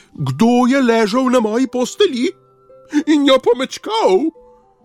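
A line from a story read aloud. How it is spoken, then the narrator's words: Shrill desperate squeal. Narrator (Slovenian): Miško pa je zacvilil, kakor da ga koljejo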